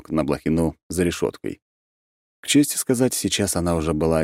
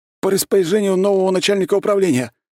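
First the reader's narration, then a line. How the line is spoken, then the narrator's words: Sudden bark. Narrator (Russian): вдруг гаркнул он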